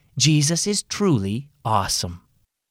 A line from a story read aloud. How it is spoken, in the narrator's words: Mom said quietly